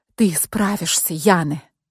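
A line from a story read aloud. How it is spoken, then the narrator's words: Whispering. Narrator (Russian): прошептала я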